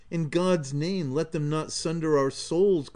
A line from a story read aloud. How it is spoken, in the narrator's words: cried I, in terror lest she should deem it her duty to deny us this last remaining consolation